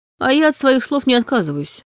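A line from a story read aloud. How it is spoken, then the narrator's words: Dismissive grunt. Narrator (Russian): хмыкнул он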